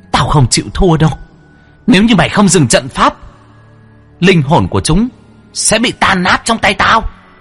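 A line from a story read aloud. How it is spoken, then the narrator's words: Shrieking hiss. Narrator (Vietnamese): Nữ quỷ rít lên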